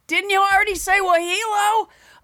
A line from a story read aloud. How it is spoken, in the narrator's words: she would yell from her little bunk bed